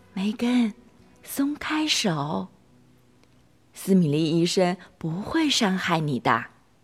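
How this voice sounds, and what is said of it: Soft, coaxing quiet voice. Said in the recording (Chinese): “小声哄着梅根说”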